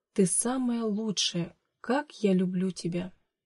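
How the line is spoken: Whisper. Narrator (Russian): шептала

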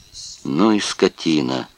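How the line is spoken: Muttered through teeth. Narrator (Russian): процедил сквозь зубы Вестхоф

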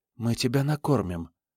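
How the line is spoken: Whispered. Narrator (Russian): Джеральдина прошептала

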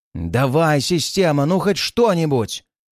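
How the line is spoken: Shouting into emptiness. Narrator (Russian): выкрикнул я в пустоту

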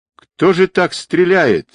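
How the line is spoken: Indignant yelling. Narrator (Russian): возмущенно заорал Квадрат

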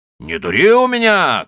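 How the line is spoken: Shout. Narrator (Russian): кричал он

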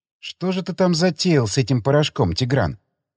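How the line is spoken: Quiet speech. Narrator (Russian): Тихо проговорила

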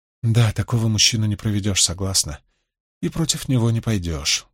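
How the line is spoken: Sighing. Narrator (Russian): вздохнула Суан

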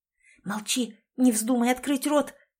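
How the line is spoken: Whispered in ear. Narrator (Russian): шептала она Элизабет на ухо

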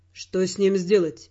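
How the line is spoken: Muffled question. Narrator (Russian): глухо спросил он

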